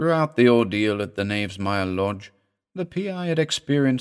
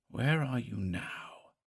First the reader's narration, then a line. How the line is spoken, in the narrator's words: he mumbled under his breath